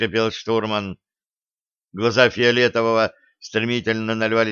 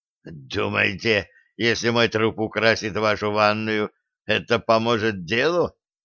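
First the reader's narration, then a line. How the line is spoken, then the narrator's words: Wheezing. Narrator (Russian): просипел адмирал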